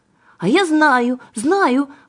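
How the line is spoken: Exclaimed. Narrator (Russian): воскликнула Аннушка

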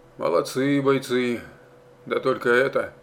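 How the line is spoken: Grumbling. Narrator (Russian): заворчал он

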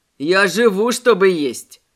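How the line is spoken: Laughing. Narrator (Russian): рассмеялся Мэй

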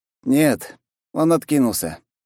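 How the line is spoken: Sighing. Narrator (Russian): вздохнул Масаши

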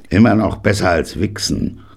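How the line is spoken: Grunt. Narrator (German): grunzte Granddaddy

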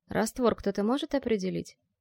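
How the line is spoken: Barely audible mouse. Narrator (Russian): еле слышно произнес мышь

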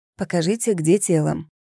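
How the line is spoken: Plain. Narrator (Russian): сказал медик

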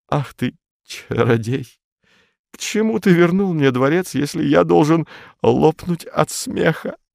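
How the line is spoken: Stammering whisper. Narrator (Russian): заикаясь, прошептал

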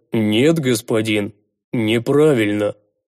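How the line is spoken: Gloomy voice, big man. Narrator (Russian): помрачневшим голосом ответил здоровяк

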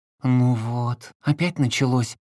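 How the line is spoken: Sigh. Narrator (Russian): вздохнула Маша

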